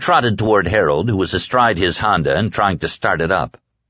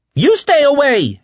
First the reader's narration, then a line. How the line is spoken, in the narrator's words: Harold screamed angrily at him